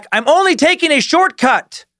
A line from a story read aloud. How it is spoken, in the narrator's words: Chase yelled back